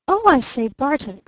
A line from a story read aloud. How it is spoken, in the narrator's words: cried the newcomer breathlessly